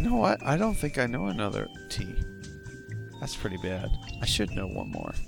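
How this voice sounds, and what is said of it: Usual voice. Nothing is said of it.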